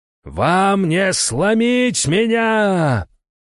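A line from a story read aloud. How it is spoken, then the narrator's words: Roar, emperor. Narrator (Russian): проревел император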